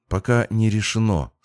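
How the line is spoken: Calm. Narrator (Russian): спокойно сказала Яра

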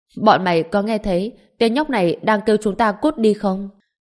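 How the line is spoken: Group's mocking loud laughter. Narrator (Vietnamese): tên đàn ông lực lưỡng cùng những người anh em của tên đó cười to

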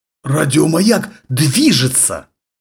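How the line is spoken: Forced out with effort. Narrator (Russian): наконец выдавил из себя Бэнкс

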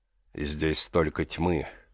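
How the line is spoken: Sigh of pleasure. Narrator (Russian): Мучукунд вздохнул от удовольствия

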